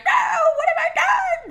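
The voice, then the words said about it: Shrill, high-pitched mocking impression. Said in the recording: “a terrible impression of me ... I'm a bird now ... That was probably very shrill”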